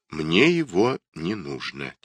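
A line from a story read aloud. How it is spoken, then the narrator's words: Quiet. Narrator (Russian): тихо проговорил Литта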